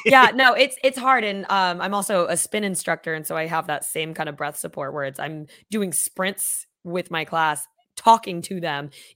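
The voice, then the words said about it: Hoarse, partly lost voice. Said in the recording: “my voice is kind of gone”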